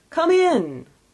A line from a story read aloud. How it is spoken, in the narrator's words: exclaimed the ghost